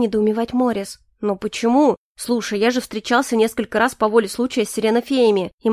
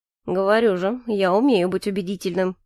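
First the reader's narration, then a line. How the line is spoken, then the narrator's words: Grim, smiling. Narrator (Russian): мрачно улыбнулся Калипсо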